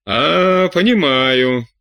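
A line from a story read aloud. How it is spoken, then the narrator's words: Sad. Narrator (Russian): печально сказал Жильбер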